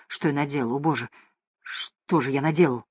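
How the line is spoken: Whispered. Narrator (Russian): он зашептал

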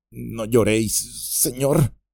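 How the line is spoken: Stammering. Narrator (Spanish): balbuceó

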